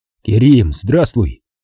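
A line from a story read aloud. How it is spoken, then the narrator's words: Cheerful greeting. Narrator (Russian): Весело поздоровался я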